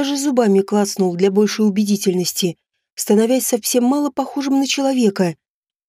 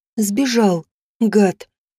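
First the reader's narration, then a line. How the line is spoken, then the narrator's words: Moaning with silly smile. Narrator (Russian): простонала я с глупой улыбкой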